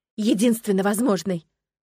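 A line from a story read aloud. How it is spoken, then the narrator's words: Hoarse, angry. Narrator (Russian): хрипло и зло повторил он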